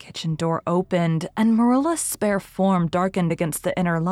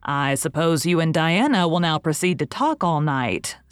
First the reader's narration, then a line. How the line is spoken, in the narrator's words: said Marilla sarcastically